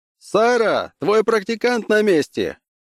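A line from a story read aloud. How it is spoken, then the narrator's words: Shout. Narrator (Russian): крикнул Лум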